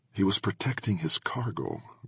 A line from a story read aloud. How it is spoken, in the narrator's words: Gordon whispered